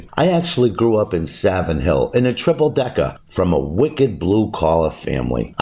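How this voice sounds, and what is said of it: Boston accent. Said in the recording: “It's where the Boston accent originated. ... my accent is legit”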